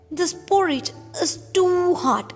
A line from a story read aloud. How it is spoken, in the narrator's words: she exclaimed